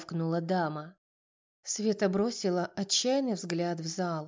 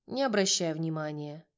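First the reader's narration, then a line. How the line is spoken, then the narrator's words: Casual, matter-of-fact tone. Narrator (Russian): будничным тоном сказал Юра, который работал здесь уже более 3 лет и повидал всякое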